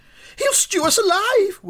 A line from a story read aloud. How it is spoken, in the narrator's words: wailed the second boy